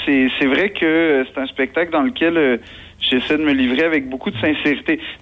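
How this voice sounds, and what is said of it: Québécois French accent. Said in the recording (French): “l'accent, c'est pas une distorsion, c'est que je suis québécois”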